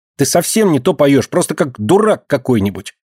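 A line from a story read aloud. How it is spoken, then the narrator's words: Angry shout. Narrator (Russian): Сердито кричит она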